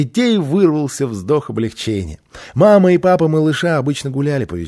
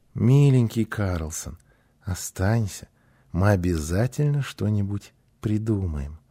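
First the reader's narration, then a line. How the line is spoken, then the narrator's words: Joyful gentle plea. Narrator (Russian): Гунила с радостью ласково попросила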